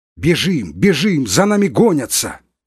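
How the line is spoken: Delirious shouting. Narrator (Russian): кричал он в беспамятстве

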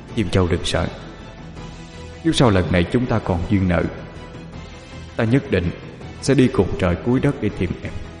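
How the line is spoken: Soft tender voice. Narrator (Vietnamese): khẽ nói

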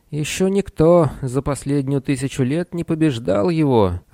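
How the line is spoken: Timid voice. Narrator (Russian): робеющим голосом произнес Сниш

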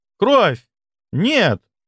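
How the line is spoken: Exclaiming. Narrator (Russian): воскликнула она

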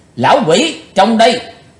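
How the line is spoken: Sudden loud shout. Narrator (Vietnamese): nam tài giả hiệu chợt quát lớn

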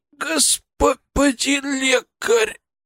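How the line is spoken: Pained rasp. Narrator (Russian): прохрипел он

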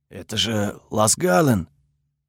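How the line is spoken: Guard's whisper. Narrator (Russian): шепот одного из охранников

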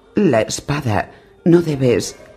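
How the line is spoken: Pleading. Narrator (Spanish): le suplicó

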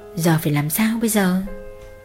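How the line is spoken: Muttering to herself. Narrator (Vietnamese): mụ lẩm bẩm tự hỏi

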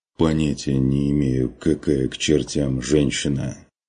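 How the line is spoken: Muffled reply. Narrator (Russian): Глухо отозвался страж

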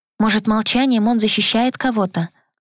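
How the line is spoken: Timid suggestion. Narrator (Russian): робко предположила я

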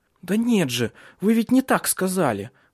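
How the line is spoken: Exclaimed. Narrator (Russian): воскликнула Силья

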